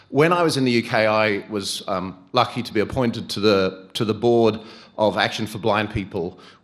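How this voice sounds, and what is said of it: British-influenced accent. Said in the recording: “I went to the UK for the first 15 years of my career, hence the accent.”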